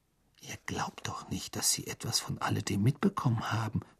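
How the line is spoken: Whispered. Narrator (German): flüsterte Hermine

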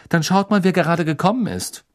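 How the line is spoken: Curt, brusque. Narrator (German): sagte Hermine schroff

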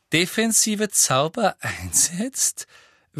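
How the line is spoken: Repeated with short laugh. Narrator (German): wiederholte Professor Umbridge mit einem kurzen Lachen

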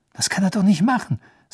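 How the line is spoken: Tense voice. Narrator (German): sagte Harry mit angespannter Stimme

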